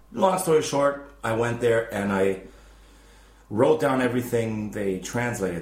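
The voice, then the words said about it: American English accent. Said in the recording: “I know I have an American accent”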